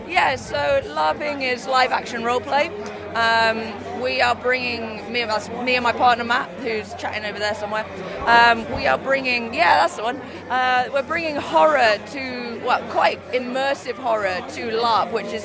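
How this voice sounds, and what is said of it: Slightly hoarse, strained voice. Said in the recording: “I've lost my voice a little bit cheering for everyone”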